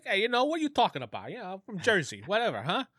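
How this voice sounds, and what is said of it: Italian mobster Jersey accent. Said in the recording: “That's actually ... like real accent... fake, you know, Midwestern accent... He's actually an Italian mobster”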